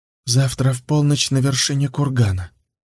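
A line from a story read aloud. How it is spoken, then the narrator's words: Quiet speech. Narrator (Russian): тихо сказал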